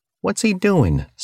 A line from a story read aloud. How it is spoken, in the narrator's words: someone in the stand shouted